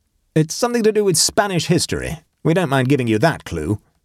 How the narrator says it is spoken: said Scatterly, helping himself cheerfully to salad

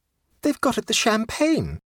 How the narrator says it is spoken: exclaimed Mrs

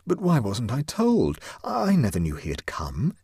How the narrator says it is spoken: exclaimed Huddle

